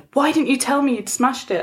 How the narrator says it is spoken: I cried

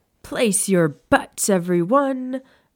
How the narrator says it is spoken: A vaguely familiar voice called out

